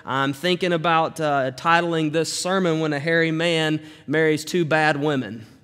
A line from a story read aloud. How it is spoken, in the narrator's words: she said